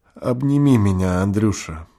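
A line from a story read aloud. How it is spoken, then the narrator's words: Kind landlady muttering. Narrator (Russian): пробормотала добрая помещица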